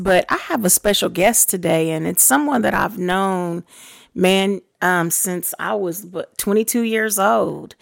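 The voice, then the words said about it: Strained, troubled voice. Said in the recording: “Excuse my voice ... I'm having a little difficulties with my voice”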